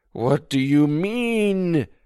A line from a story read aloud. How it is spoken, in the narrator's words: Josh pleaded